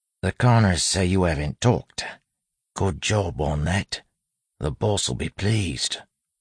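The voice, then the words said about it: Low street-tough accent. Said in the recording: “speaking in the street-tough accent, low enough so those outside couldn't hear”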